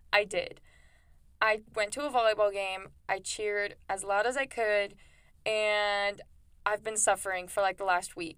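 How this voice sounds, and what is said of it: Hoarse, sick-sounding voice. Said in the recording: “my voice. I know it probably sounds like I lost my voice or that I'm sick, and it's because I am.”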